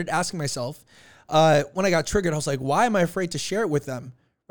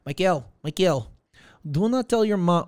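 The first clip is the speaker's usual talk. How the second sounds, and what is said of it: Put-on Russian accent. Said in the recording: “I just gave my dad a Russian accent”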